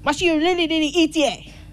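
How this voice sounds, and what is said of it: Imitates another person's accent. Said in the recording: “I'm not laughing at his accent”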